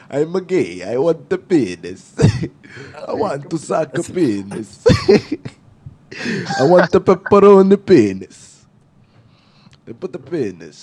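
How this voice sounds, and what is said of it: Put-on Italian accent. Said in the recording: “Start doing an Italian accent.”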